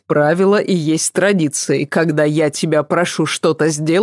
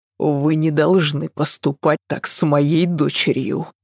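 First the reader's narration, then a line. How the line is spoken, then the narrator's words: Hissing. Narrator (Russian): прошипел Адам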